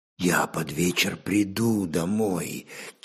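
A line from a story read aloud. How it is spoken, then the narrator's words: Quiet. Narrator (Russian): тихо проговорил Агнияр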